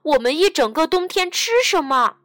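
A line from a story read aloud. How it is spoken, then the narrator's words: Shouting. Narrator (Chinese): 马克大叫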